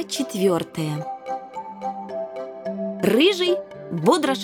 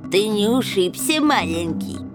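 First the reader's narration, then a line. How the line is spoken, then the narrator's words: Mocking, nasal. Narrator (Russian): с издевательской лаской произнес чей-то гнусавый голос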